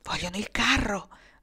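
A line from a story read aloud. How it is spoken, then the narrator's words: Fearful dry-lipped whisper. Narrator (Italian): bisbigliò Kendra con le labbra secche per la paura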